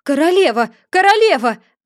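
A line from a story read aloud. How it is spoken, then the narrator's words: Anxious exclamation. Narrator (Russian): воскликнул пятерка, который все время с тревогой озирался по сторонам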